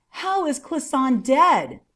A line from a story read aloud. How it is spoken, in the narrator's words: he cried out